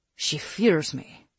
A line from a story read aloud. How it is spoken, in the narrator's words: Gustavo growled